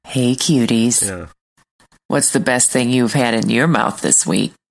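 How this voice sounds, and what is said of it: Attempted sexy voice, sounds like old woman. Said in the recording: “Sounds like that sounds like an old woman right there... That sounds like grandma... the brief was a sexy voice, but I'm not sure she pulled it off.”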